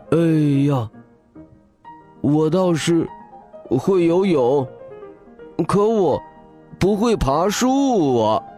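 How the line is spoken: Sighing. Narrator (Chinese): 笑天天也叹了口气

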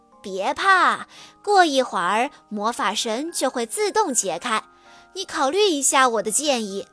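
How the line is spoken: Grinning, cheerful. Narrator (Chinese): 他笑嘻嘻地说

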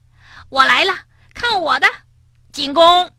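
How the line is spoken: Excited laughing screams. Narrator (Chinese): 两个好朋友尽情的笑着、尖叫着

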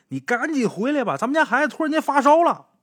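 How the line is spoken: Shouting over the phone. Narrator (Chinese): 电话里边，何强他媳妇开始嚷嚷了

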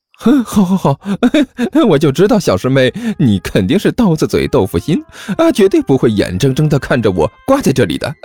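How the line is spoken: Smiling, cheerful. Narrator (Chinese): 小师妹笑眯眯的说道

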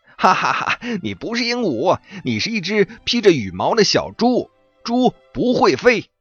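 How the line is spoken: Laughing. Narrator (Chinese): 猴子大笑着说

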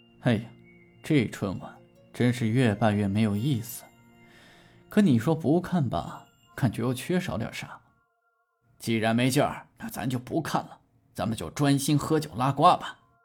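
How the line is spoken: Grumbling complaint. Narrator (Chinese): 老范忽然发起了牢骚

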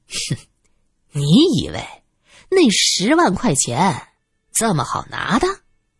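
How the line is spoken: Sly chuckle. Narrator (Chinese): 苗一嘿嘿一笑

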